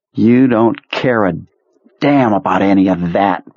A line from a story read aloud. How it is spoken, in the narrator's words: Pearlie spat